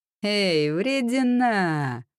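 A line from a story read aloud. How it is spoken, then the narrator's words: Mocking drawl. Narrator (Russian): протянул кто-то издевательским тоном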